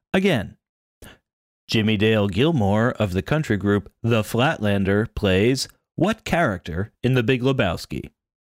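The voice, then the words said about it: Exaggerated announcer voice. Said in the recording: “You're so announcerly. Like I was doing. ... Purposeful announcer voice”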